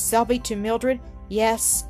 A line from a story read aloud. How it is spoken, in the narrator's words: she said in an odd, tremulous tone